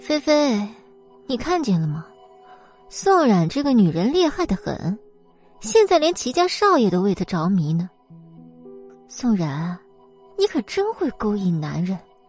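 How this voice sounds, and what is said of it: Sarcastic, sneering tone. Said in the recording (Chinese): “他用阴阳怪气的声音说”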